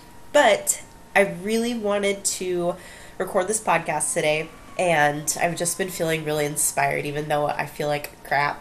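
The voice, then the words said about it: Scratchy, sick-sounding voice. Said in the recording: “I'm kind of sick right now, and my voice is a little scratchy, and I might be sniffing here and there”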